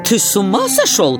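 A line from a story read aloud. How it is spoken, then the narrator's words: Exclaimed. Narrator (Russian): воскликнул калиф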